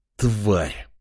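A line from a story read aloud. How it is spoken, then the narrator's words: King's hiss. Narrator (Russian): прошипел король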